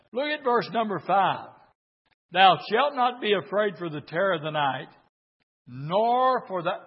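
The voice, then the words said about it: Hoarse voice. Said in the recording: “I'm real hoarse tonight.”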